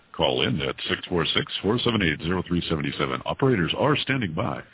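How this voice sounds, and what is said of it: Announcer-style broadcast voice. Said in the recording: “do my best NBC voice.”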